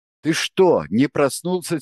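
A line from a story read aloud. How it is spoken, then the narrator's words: Angry. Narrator (Russian): сердито сказал Андрей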